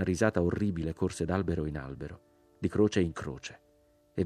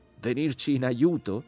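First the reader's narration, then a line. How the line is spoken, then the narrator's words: Shout from above. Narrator (Italian): gridò la voce dall'alto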